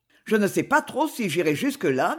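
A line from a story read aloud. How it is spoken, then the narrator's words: Critical tone. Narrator (French): dit le gros garçon d'un ton critique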